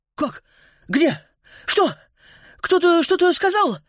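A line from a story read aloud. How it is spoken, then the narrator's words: Sleepy exclamation. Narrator (Russian): спросонья воскликнул Антон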